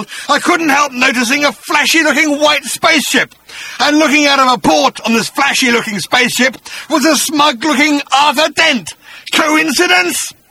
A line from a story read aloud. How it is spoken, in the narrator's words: snarled